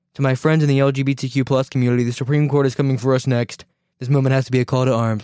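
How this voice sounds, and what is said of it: Donald Trump impression. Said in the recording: “Why am I mimicking Trump when I'm saying this? I'm trying to mimic Lori Lightfoot.”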